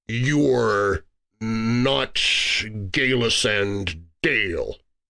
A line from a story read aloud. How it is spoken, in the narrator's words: he said slowly